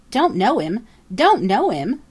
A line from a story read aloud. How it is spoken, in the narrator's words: sputtered Jenny